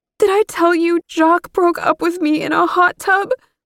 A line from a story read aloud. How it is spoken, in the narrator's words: Mom gasped